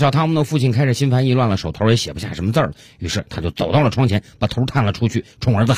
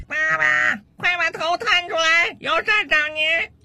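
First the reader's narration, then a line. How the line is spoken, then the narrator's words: Son's loud shout from downstairs. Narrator (Chinese): 楼下又传来他儿子的大声喊叫声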